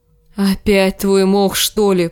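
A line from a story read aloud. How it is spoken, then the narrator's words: Groaning. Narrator (Russian): простонал Джендри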